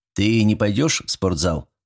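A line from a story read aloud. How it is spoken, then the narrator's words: Plain. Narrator (Russian): спросил он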